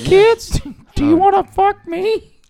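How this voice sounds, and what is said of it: High squeaky Elmo puppet voice. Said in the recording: “being in Elmo voice”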